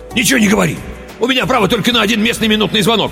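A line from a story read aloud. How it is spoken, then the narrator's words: Rapid chatter. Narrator (Russian): тараторил он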